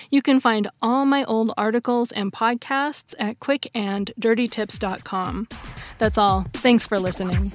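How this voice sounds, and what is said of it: Voice sounds weird, slightly sick. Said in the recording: “I think I'm coming down with a little cold. I'm sorry if my voice sounds weird today.”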